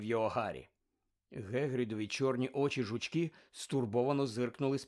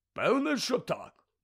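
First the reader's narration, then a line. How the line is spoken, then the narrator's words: Grumbling. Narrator (Ukrainian): буркнув Гегрід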